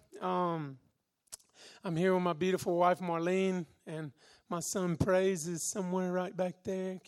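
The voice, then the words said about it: Southern American accent. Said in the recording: “If you can tell my accent, I'm actually from Alabama in America.”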